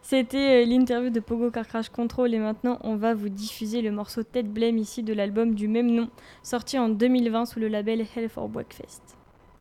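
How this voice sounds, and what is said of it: English accent on English names. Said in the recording (French): “T'as vu mon accent anglais, ça allait cette fois?”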